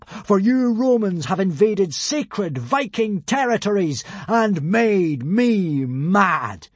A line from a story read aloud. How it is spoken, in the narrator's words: bellowed Hiccup